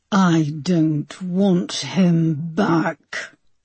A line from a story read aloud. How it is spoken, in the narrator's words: Linda hissed